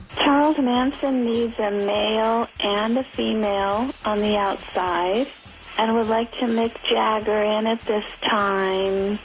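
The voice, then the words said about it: Impression of an eccentric woman's voice. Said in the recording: “crazy lady impressions ... pretty good ... they seem to have her down ... That was an impression ... Crazy woman again”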